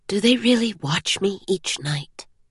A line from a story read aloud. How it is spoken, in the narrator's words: She asked, leaning in and whispering